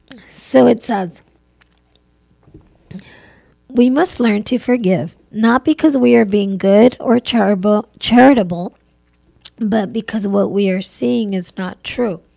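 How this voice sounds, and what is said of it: Strained, failing voice. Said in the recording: “Oh my gosh, my voice is going.”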